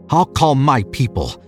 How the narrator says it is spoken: he snarled

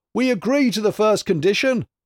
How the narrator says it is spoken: cried the people in one voice

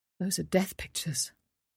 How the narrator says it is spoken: said softly

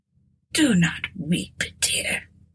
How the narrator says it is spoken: said feebly

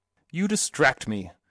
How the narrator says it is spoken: snapped Mr

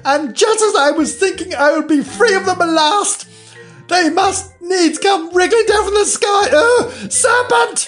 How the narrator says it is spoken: continued, raising its voice to a shriek

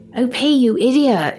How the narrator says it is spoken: she shouted, almost giggling

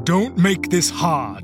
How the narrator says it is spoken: one of the men barked

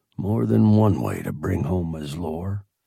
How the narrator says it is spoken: I muttered

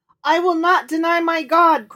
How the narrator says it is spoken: cried the boy

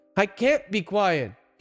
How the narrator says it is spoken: he shouted

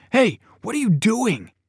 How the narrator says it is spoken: started yelling

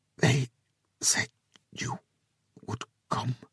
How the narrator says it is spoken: she whispered, the words awkward in her mouth

